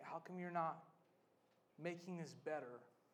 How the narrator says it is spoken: Jesus whispers into the stillness and the quiet

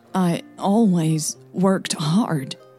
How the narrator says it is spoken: stammered, her voice a bit unstable

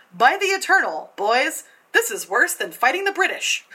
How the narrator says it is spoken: General Jackson exclaimed again

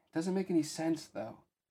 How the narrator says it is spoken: Pence sighed

